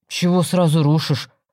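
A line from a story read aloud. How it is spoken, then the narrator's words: Offended objection. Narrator (Russian): обиженно возразил я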